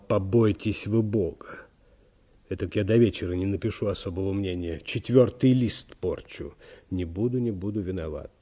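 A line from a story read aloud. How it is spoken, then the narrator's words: Apologetic whisper. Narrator (Russian): извинил секретарь и продолжал шепотом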